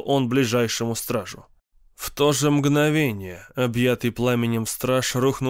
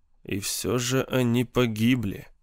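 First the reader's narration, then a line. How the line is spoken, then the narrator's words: Barely audible mutter. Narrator (Russian): пробормотал чуть слышно астроном Шури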